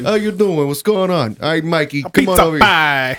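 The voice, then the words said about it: Thick put-on New York accent. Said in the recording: “the thickest New York accent possible ... trying to do a New York accent”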